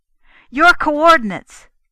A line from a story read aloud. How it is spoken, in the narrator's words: Kennan snapped